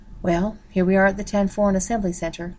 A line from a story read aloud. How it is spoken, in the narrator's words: Ken said dryly